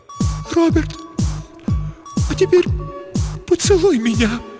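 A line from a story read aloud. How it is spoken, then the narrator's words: Nearly sobbing. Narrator (Russian): произнесла Елена, едва не рыдая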